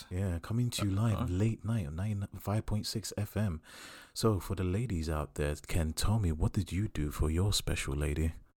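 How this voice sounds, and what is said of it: Deep sexy radio voice. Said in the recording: “I'm using my deep radio voice, you know, my sexy voice ... That Morgan Freeman voice ... That God voice”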